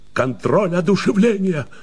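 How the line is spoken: Triumphant shout. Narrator (Russian): торжествующе выкрикнул Коллинз

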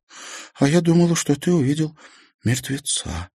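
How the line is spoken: Whispered. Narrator (Russian): шепнула Марьяна

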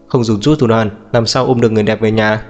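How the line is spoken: Bursting out laughing. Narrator (Vietnamese): Diệp Uyên cười phá lên

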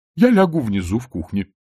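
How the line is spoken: Cheerful speech. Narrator (Russian): бодро сказала госпожа Овнец

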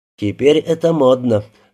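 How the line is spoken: Sighing. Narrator (Russian): вздохнул Рябинин

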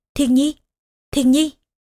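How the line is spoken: Flustered stammering call. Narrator (Vietnamese): Trương Nghi cuốn quýt, miệng lắp bắp gọi

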